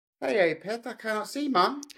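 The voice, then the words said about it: Unconvincing attempt at a Geordie accent. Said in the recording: “in a Geordie accent ... I don't think I can give you a point for that ... I can't do Geordie.”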